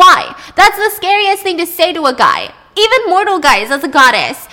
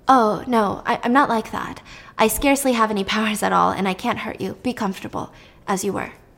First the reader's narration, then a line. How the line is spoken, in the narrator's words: she dropped her voice and said